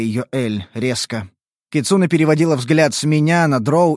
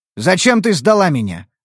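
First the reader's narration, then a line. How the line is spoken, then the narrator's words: Cold question. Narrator (Russian): вопросил холодно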